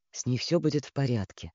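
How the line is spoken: Uncertain mutter. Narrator (Russian): пробормотал он, то ли спрашивая, то ли утверждая

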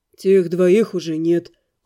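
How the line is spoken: Soothing reply. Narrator (Russian): успокаивающим тоном ответил Дамиан

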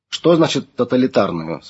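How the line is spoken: Plain. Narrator (Russian): спросил Александр

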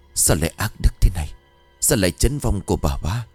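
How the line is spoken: Startled old man muttering. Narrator (Vietnamese): Ông thẳng thốt rồi lẩm bẩm

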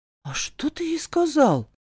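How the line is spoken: Bewildered, forced out. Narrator (Russian): растерянно выдавила Жасмин

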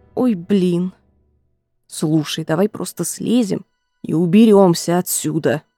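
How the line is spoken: Grumbling mutter. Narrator (Russian): пробурчал Джереми

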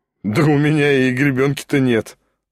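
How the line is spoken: Laughing. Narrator (Russian): засмеялся Шатов

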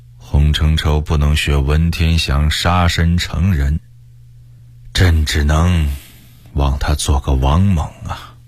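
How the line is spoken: Sighing. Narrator (Chinese): 崇祯叹息了一声说

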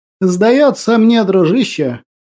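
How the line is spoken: Nervous chuckle. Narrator (Russian): нервно хохотнул профессор оккультных наук

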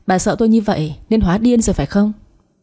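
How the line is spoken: Sneering. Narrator (Vietnamese): Tôi cười nhạt

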